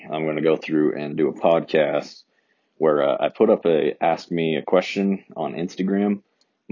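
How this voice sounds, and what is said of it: Deeper than normal, sick voice. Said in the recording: “my voice, it's a little deeper than normal. I actually woke up with a cough this morning ... before I lose my voice”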